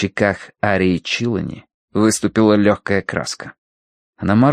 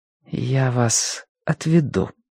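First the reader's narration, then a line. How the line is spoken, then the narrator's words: Quiet. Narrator (Russian): сказала она тихо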